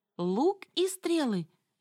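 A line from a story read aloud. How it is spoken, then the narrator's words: Cheerful announcement. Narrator (Russian): весело объявила я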